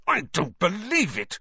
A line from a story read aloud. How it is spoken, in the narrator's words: Wood hissed in outrage